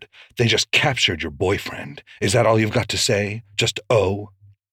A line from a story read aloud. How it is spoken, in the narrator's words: snapped